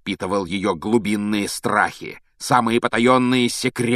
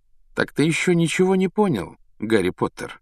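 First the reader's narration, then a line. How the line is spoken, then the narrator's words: Insinuating question. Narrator (Russian): вкрадчиво спросил Реддл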